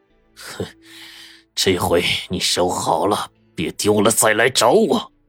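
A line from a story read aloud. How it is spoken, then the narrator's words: Through gritted teeth. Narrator (Chinese): 魏老板咬牙切齿的说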